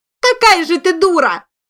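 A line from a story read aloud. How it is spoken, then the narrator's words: Shouting even louder. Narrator (Russian): закричала та еще громче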